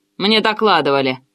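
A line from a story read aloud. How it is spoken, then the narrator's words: Boss grumbling. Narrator (Russian): проворчал начальник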